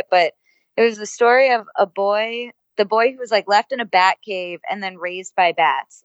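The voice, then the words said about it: Slightly hoarse, fading voice. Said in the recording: “I'm starting to lose my voice just a little bit”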